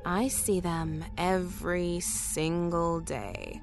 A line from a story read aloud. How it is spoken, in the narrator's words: Tanya said slowly